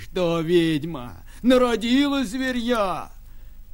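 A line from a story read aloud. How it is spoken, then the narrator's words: Old man shouting. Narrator (Russian): Дед кричал ей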